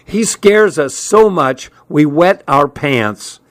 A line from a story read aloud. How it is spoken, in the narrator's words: he shouted over the blast of air, which was screaming through the open windows